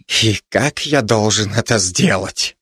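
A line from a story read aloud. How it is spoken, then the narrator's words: Muttered, unfamiliar voice. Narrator (Russian): пробормотал незнакомый голос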